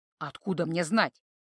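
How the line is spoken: Grumbling. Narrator (Russian): проворчал Торн

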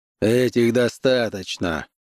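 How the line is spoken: Grumbling. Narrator (Russian): проворчал он

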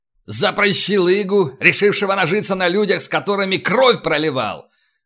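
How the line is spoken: Startling loud bark. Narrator (Russian): гаркнул так, что в переднем ряду вздрогнули

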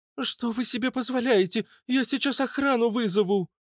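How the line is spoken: Girl's sharp cry. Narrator (Russian): вскрикнула девушка

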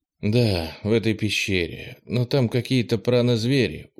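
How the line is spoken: Tired reply. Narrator (Russian): устало ответил Кенни

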